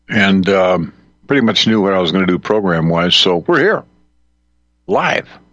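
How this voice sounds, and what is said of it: Usual voice. Nothing is said of it.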